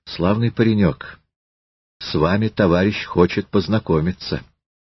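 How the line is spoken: Quiet. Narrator (Russian): Щемилов тихо сказал Елизавете

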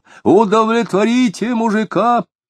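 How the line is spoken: Frenzied shout. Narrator (Russian): около Бердникова кто-то неистово крикнул

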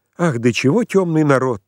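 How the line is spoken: Pitying, then giggling. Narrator (Russian): жалостливо добавила Пелагея Ивановна, а потом чего-то хихикнула

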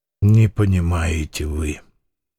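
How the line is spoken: Said quietly. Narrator (Russian): тихо сказал Фома

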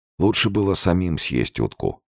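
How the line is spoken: Sad. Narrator (Russian): грустно сказал Савченко

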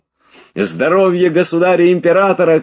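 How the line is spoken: Shouting. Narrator (Russian): кричал он

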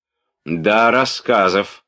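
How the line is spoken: Loud. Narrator (Russian): Громко заговорил Ростов

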